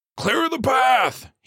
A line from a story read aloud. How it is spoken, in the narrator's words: he bellowed